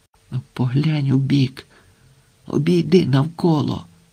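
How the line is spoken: Whispered coaxing. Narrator (Ukrainian): пошепки умовляв його Сенько

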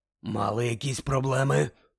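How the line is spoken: Hoarse rasp. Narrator (Ukrainian): прохрипів Муді

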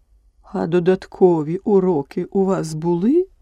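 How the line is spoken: Plain. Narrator (Ukrainian): запитала вона

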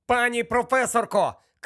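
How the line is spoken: Shouted. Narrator (Ukrainian): крикнув Гаррі

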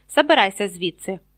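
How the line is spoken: Barked. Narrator (Ukrainian): гаркнув Персі

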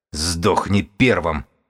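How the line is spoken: Growling. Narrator (Russian): прорычал книжник

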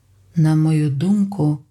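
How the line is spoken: Hollow, muffled voice. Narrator (Ukrainian): сказав Ел глухим голосом

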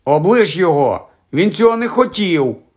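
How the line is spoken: Shouted. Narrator (Ukrainian): крикнула Джинні

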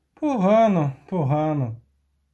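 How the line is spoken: Sigh. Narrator (Ukrainian): зітхнув любисток

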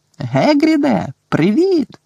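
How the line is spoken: Shouted. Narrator (Ukrainian): закричав Гаррі

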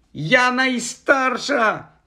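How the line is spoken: Shrieking. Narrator (Ukrainian): заверещала Софі

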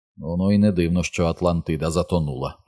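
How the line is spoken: Mutter. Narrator (Ukrainian): пробурмотів Ричард

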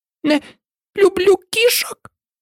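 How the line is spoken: Angry mouse squeak. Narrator (Ukrainian): Гнівно пропищала миша

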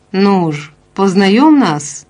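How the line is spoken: Cheerful. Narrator (Ukrainian): мовив весело

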